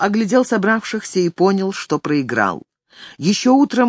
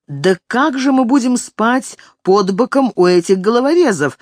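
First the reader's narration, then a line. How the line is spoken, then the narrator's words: Son exclaiming. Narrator (Russian): воскликнул один из сыновей Отто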